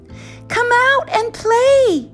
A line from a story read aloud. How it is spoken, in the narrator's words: his friends shouted